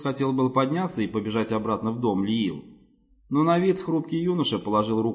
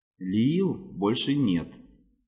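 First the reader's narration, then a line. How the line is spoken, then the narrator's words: Soft. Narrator (Russian): мягко сказал Самнир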